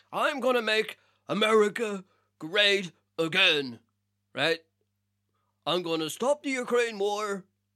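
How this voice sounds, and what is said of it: Poor imitation of another person's voice. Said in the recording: “That's my terrible fucking Trump impression”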